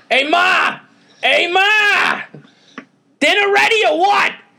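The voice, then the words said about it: Exaggerated New York accent. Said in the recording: “that famous New York accent ... slightly Soprano-ish ... sounds like James Gandolfini choking on a sandwich”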